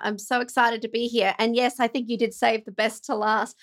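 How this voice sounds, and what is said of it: Australian accent. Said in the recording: “I'm an Aussie, obviously. So if you can't tell by my accent, some people mistaken me for either a Kiwi or a British or a South African.”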